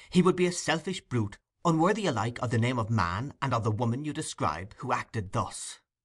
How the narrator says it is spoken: said the young man impatiently

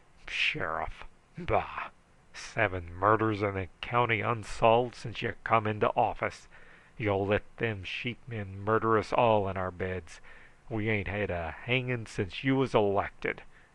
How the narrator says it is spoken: stalked out sulphurously, only turning back to snort

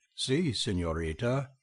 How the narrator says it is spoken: he would say with a deep sigh

